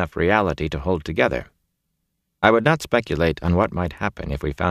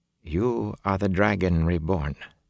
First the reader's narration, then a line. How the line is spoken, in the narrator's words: she said quietly